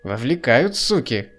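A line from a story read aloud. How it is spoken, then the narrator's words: Satisfied snort. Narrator (Russian): Удовлетворенно хмыкнул мужичок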